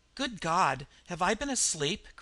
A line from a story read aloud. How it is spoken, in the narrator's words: cried the man